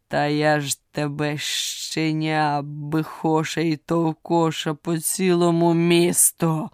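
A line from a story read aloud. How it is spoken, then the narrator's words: Menacing growl, lion. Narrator (Ukrainian): Грізно прогарчав лев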